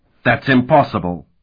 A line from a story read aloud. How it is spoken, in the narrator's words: Sparhawk exclaimed